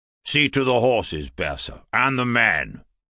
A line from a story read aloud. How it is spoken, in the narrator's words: snarled